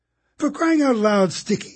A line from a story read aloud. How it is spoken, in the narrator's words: she complained